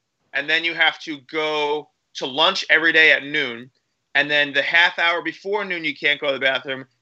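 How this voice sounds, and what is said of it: Hoarse, froggy voice. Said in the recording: “my voice is so froggy”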